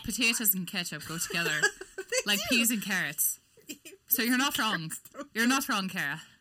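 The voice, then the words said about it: Put-on Irish brogue. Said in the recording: “I was trying to do it in a brogue. I guess I didn't do it right. ... I'm just enjoying your accent ... Irish is like one of the hardest ones for me to do.”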